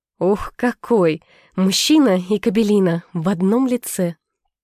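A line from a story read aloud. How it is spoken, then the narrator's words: Joyful. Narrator (Russian): Радостно выдала Нина Алексеевна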